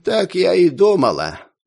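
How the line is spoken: Sighing. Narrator (Russian): вздохнула

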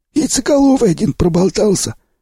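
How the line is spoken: Husky voice. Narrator (Russian): ответил сиплый

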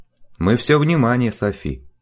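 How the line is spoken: Soft-spoken priest. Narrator (Russian): мягко сказал отец Лотар

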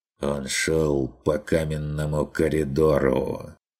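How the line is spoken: Quiet creaky voice. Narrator (Russian): проскрипела она тихо

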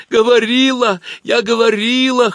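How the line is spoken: Whimpering. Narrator (Russian): хныкала Галка

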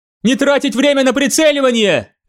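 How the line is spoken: Shouting. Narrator (Russian): крикнула она

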